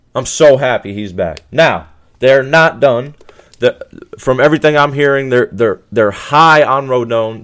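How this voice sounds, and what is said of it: Excited, hyped-up voice. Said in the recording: “I don't know if you can hear it in my voice, but I am hyped.”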